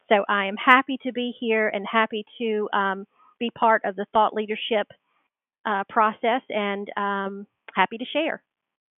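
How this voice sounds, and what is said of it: Southern American accent. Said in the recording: “my very, very awesome Southern accent ... This is as Southern Belle as you can get”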